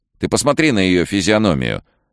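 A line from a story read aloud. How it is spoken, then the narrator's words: Snapping. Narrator (Russian): огрызнулась Лиз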